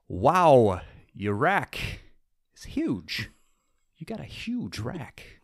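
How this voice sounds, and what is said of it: Poor Christopher Walken impression. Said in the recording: “my poor Christopher Walken impression”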